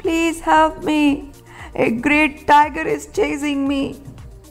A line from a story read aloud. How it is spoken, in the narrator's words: panting and whimpering